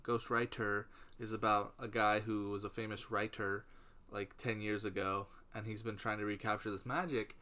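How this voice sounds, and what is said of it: Midwestern American accent with twang. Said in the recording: “my Midwestern accent. ... You're twang.”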